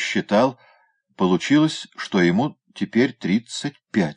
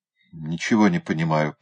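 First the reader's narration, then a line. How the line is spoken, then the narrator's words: Muttered. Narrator (Russian): пробормотал он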